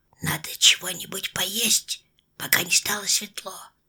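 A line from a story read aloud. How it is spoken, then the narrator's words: Whispered. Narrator (Russian): сказал кто-то шепотом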